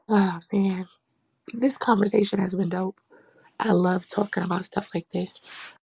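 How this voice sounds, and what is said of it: Worn-out, hoarse voice. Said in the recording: “As you can hear, my voice is shot from yesterday.”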